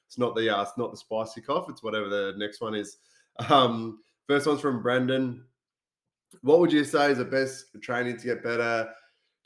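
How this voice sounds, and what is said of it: Nasal, congested voice from a cold. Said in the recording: “I sound a bit nasally. ... I've just uh, been a bit sick for the last two weeks. Got this uh, cold”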